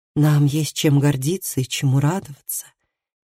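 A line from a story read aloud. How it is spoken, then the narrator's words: Soft. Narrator (Russian): мягко продолжила Лив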